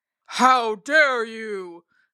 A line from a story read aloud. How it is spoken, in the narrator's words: Bear bellowed